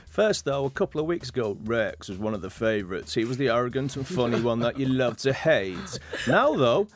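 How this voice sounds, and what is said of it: Radio presenter voice, slight American accent. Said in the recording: “I'm loving your radio voice ... a little bit of an American accent coming out on you there as well”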